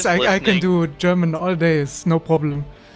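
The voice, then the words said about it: Put-on German accent. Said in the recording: “Do a German accent ... Actually, that was really good ... he is doing the German accent ... very good”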